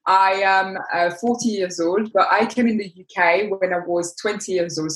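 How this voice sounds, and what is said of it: French-accented English. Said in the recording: “you can hear by my accent that I'm French”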